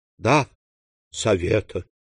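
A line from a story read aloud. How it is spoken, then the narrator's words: Dejected voice. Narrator (Russian): упавшим голосом отвечала госпожа Данглар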